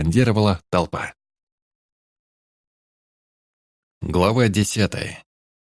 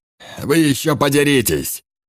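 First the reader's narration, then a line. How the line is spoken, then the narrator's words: Barked. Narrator (Russian): Рявкнул Энгельс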